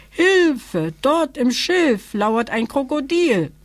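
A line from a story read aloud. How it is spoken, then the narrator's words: Calling out again, young elephant. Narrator (German): rief das Elejunge abermals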